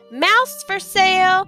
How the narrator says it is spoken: yelling

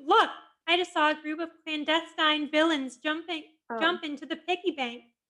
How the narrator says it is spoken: Suddenly, Velma screamed

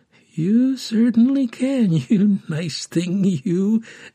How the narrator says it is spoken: giggled the orphan keeper's assistant inwardly

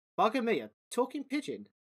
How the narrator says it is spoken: exclaimed Dom

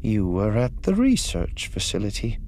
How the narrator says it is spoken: she said coolly

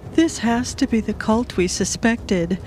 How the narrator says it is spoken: Nalan gasped for air

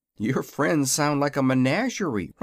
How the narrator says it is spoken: remarked Zeb uneasily

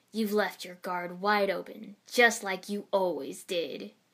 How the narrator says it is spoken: he sneered

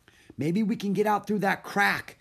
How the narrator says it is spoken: cried Annie

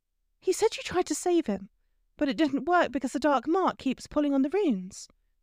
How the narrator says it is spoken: she said to Snape, her voice trembling

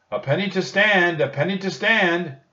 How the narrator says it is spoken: he shouted

